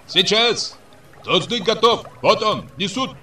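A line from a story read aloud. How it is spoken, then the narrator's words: Shouting from afar. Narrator (Russian): закричал из Гутты каратаю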